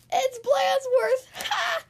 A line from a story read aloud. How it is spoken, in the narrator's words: cried the guys